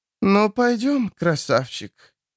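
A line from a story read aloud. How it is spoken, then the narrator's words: Wheezing. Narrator (Russian): Эта третья просипела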